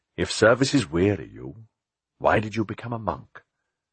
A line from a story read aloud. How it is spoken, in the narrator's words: Philip said gently